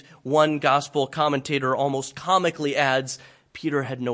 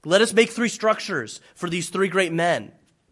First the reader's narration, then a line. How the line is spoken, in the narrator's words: He blurts out